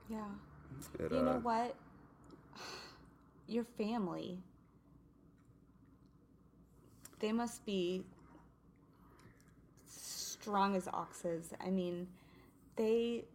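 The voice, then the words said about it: Emotional, choked-up voice. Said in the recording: “I'm getting emotional here”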